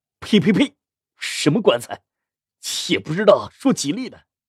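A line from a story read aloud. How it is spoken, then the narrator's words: Low voice. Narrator (Chinese): 东桑低声说着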